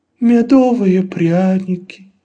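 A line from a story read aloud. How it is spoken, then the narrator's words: Sigh. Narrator (Russian): вздохнул Лабан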